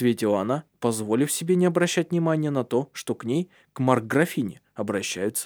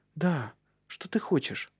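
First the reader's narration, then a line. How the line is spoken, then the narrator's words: Fearful whisper. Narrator (Russian): Раздался боязливый шепот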